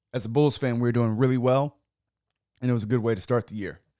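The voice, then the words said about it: Hoarse, slightly off voice. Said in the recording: “my voice is a little off. If it sounds a little weird, it's not because of the equipment... It's because I'm hoarse”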